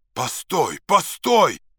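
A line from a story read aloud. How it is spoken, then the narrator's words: Sudden shout. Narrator (Russian): закричал вдруг Максим Максимыч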